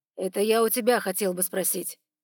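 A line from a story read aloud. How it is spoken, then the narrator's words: Cold reply. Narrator (Russian): холодно ответил Ноа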